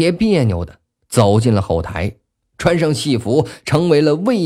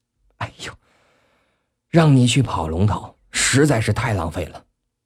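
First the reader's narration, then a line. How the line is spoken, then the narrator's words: Admiring. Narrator (Chinese): 孙子楚赞叹道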